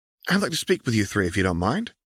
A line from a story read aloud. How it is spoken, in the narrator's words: she said in a pleasant tone